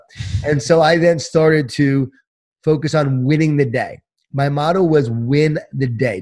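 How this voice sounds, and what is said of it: Strained, worn-out voice. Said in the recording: “My voice is shot.”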